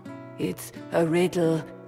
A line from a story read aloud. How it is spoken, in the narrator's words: he whispered